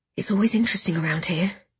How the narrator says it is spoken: I muttered to Gideon

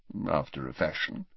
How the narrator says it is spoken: mumbled Dumbledore

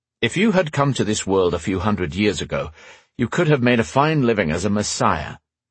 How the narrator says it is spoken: said Gary dryly

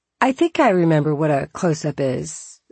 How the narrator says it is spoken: I said

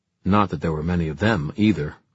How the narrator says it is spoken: Livy added grimly

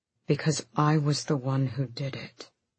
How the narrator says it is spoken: He said softly

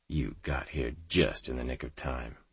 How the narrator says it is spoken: I muttered to Sampson under my breath

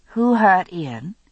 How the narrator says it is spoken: gave a long sigh before answering

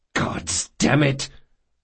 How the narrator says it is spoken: Locke hissed

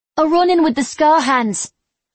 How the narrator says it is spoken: Muncy blurted

